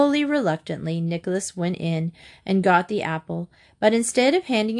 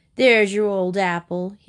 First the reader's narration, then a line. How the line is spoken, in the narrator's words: he said, laughing